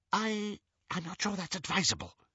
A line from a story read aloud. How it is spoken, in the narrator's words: whispered Xenophilius